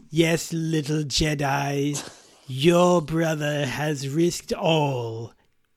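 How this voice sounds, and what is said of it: Sinister film villain character voice. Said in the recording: “do my Palpatine voice”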